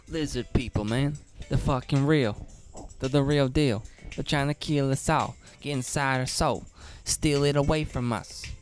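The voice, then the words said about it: Raps in a weird voice. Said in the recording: “rapping in this weird voice ... That's like your rapping voice.”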